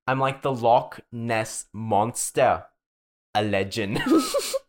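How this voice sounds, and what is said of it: Attempted Scottish accent. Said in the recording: “she's what's it called? Scottish. So that's why I did that. I tried to do that accent.”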